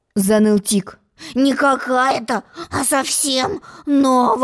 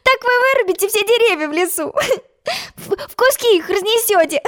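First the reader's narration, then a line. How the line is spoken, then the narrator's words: Laughing. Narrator (Russian): Засмеялась Алиса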